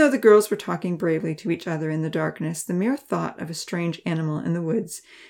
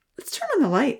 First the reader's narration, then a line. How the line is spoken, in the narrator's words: Georgia said eagerly